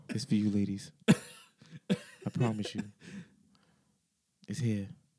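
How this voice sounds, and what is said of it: Sexy, seductive voice. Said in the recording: “You put on a sexy voice.”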